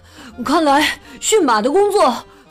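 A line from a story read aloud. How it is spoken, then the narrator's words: Panting. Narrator (Chinese): 本喘着粗气说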